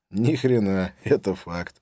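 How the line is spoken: Laughing. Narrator (Russian): рассмеялся я тоже

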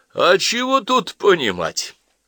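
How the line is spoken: Loud guffaw. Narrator (Russian): захохотал Барский, до того мрачный

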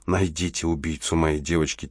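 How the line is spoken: Quiet plea. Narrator (Russian): тихо попросила она

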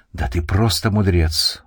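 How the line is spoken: Exclaiming. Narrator (Russian): воскликнул

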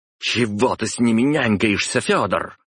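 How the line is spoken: Female growl. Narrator (Russian): прорычала Добрынина

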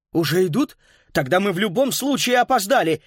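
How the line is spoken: Frightened exclamation. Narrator (Russian): испуганно воскликнул он

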